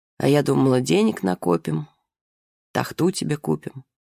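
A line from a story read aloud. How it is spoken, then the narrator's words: Sad. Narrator (Russian): Она сказала печально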